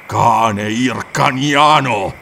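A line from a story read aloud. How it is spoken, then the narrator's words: Thundering, barbaric accent. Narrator (Italian): tuonò l'apparizione con accento barbaro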